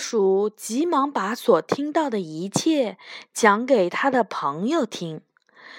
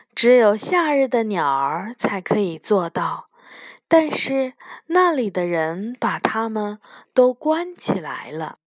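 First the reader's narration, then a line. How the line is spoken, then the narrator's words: Sighing. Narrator (Chinese): 风叹着气说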